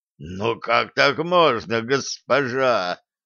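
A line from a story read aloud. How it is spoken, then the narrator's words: Moan. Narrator (Russian): простонал Шреддер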